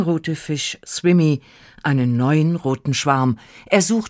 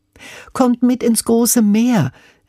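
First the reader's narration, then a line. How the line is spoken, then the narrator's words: Cheerful calling. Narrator (German): rief er ihnen munter zu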